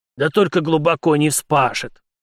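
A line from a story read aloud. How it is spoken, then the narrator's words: Stubborn grumble, secretly moved. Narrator (Russian): из чистого упрямства проворчал растроганный в глубине души старшина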